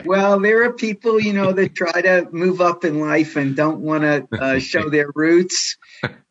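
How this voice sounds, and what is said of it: New York accent. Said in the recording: “the guy with the New York accent ... So it never leaves”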